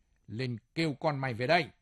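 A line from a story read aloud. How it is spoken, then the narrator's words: Harsh, menacing. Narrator (Vietnamese): Nó gằn giọng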